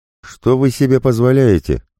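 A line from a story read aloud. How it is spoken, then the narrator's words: Shrill squeal. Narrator (Russian): взвизгнула официантка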